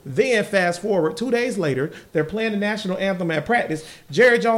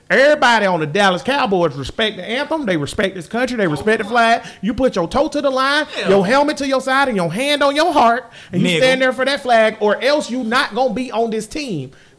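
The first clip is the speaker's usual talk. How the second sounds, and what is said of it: Imitates another person's voice. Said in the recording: “I'm going to do my Jerry Jones voice.”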